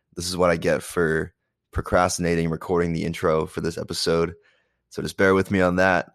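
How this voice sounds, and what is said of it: Sick-sounding voice. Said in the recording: “my voice sounding like this. I'm a little sick right now.”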